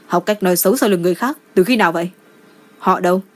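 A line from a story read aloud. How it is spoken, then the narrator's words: Stern rebuke. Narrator (Vietnamese): Đỗ Hận Ngôn nghiêm giọng trách mắng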